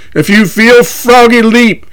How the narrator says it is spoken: Puckett yells

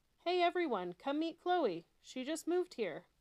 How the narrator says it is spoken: Fiona called out to all her friends

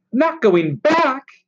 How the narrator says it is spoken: he cried

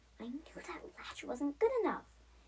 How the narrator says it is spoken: she whispered to herself again

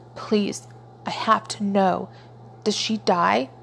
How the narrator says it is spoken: He choked out

